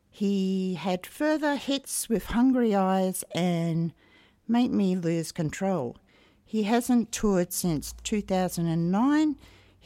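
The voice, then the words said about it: Cracky, hoarse voice. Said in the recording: “my voice is a bit cracky”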